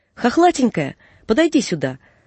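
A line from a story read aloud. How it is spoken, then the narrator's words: Sudden shout. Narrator (Russian): вдруг крикнул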